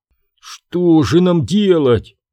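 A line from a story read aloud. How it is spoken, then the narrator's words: Groaning. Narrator (Russian): простонал Свинсон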